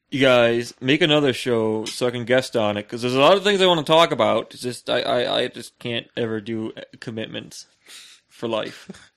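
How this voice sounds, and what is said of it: Impression of a friend's voice. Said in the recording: “you do a better impression. ... that's a much better impression of Sam than I can do.”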